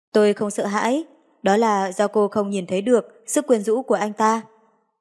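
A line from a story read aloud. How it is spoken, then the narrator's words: Smiling reply. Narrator (Vietnamese): mỉm cười trả lời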